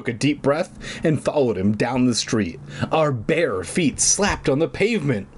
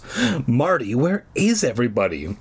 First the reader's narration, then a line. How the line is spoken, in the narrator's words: I called breathlessly